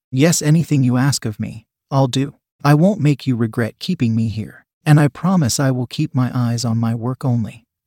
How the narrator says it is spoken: Adam said

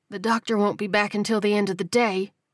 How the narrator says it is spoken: she said hoarsely

